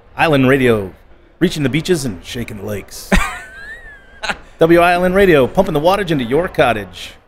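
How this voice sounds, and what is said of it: Radio DJ announcer voice. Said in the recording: “the radio voice ... I was a DJ on a local radio station”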